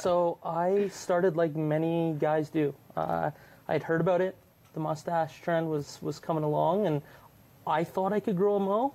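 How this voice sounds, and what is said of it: Non-Australian accent. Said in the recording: “I don't know if you can tell by my accent, but I'm not Australian”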